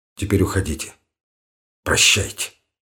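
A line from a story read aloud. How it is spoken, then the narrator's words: Decisive, abrupt. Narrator (Russian): сказал решительно, отрывисто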